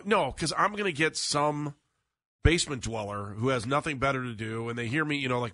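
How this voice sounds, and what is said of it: Congested, slightly off voice. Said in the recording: “my voice is a little bit off, or I'm coughing every once in a while ... I'm totally congested right now”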